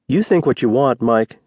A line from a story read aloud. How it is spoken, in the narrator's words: said in a calm, measured voice